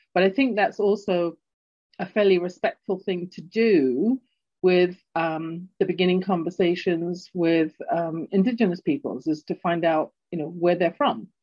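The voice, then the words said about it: English accent from London. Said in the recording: “my English accent, and people can't quite place it. Sometimes they hear it and they think it's Australian or South African ... growing up in London, England”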